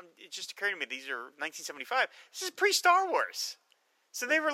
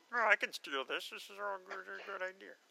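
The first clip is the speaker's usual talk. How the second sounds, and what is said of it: Imitated voice, almost Kermit-like. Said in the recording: “great George Lucas impression. That's fantastic. Thank it's almost Kermit the Frogish.”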